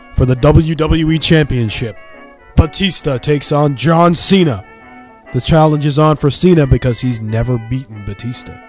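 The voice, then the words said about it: Wrestling announcer voice. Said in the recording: “my announcer voice”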